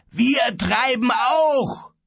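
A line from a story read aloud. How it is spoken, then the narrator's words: Roared. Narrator (German): brüllte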